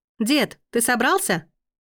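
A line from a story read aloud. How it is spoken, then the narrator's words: Calling out loudly. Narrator (Russian): прокричала Аглая в пространство квартиры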